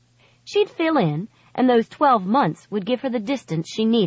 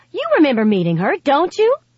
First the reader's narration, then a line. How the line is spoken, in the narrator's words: said, excitedly